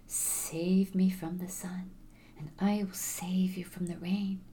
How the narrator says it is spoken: hissed softly

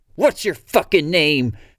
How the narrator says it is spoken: Kaylee screams

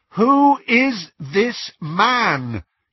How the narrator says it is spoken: he repeated loudly

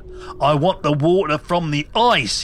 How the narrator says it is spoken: he screamed

